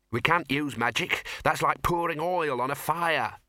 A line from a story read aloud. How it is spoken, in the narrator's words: snapped the Dean